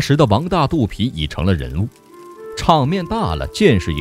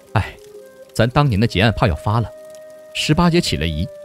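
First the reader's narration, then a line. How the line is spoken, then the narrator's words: Sighing. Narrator (Chinese): 玉果才叹气说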